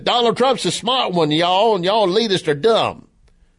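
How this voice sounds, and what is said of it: Put-on Southern US accent. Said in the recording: “an impersonation with a southern accent, and I could do that because I'm from the South”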